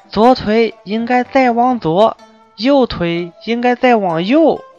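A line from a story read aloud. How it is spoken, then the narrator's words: Loud. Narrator (Chinese): 大声说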